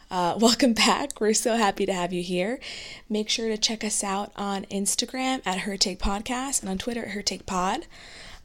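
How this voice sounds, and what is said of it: Hoarse, fading voice. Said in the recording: “losing my voice. I present zero symptoms besides losing my voice”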